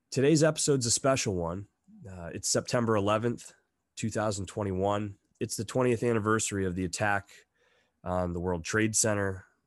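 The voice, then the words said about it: Slightly congested, off-sounding voice. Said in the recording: “I'm coming over a little bit of a head cold, so my voice is ... a little off.”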